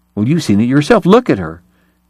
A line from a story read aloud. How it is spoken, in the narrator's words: Eli cried